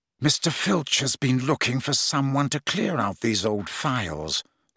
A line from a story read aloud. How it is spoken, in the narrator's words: said Snape softly